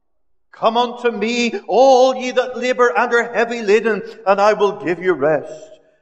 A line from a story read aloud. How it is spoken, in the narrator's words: he had cried